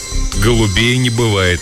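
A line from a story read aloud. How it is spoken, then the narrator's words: Grim joke. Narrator (Russian): мрачно пошутил он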